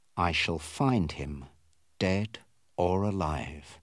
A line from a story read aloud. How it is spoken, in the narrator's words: he said quietly